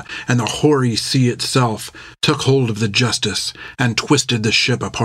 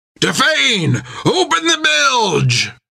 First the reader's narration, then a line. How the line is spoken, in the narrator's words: roared Jack